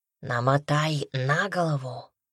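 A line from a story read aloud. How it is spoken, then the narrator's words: Barely audible whisper. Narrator (Russian): чуть слышно шепнул он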